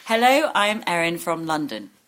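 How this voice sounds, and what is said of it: Put-on English accent. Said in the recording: “can you do an English accent? ... That's good.”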